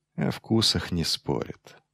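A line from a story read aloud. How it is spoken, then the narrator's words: Dull, quiet mutter. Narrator (Russian): тупо пробормотал Майлз, достаточно тихо, чтобы его не услышали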